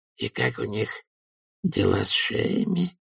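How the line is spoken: Mumbled. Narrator (Russian): промямлил ячеистый

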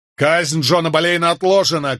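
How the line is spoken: Shout. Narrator (Russian): крикнул я

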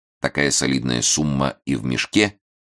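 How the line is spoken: Cold question. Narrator (Russian): холодно спросил Раст Петрович

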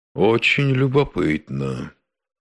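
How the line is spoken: Thoughtful drawl. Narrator (Russian): задумчиво протянул Штрозек

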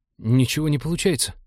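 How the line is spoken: Frightened report. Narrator (Russian): доложил тот, испуганно косясь на бластер в руке босса

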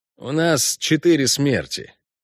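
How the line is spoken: Gloomy report. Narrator (Russian): мрачно сообщил эльф

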